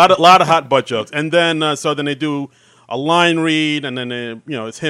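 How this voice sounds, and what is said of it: Usual voice. Nothing is said of it.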